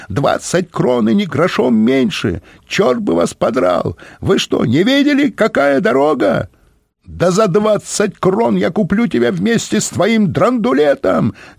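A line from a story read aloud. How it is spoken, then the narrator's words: Shrieking. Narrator (Russian): визжали в ответ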